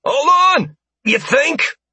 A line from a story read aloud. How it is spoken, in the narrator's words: someone yelled